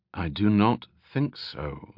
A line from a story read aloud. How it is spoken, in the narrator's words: the Veilman replied evenly